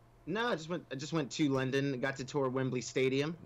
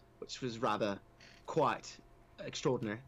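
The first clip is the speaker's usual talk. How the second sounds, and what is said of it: Put-on English accent. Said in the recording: “Got to talk in an English accent ... It's your Mary Poppins English accent ... It's like Harry Potter.”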